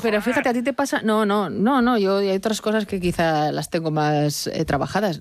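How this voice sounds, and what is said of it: Nasal voice. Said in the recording (Spanish): “tengo voz nasal”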